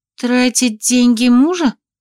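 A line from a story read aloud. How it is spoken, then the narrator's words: Uncertain tentative. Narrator (Russian): как-то неуверенно предложила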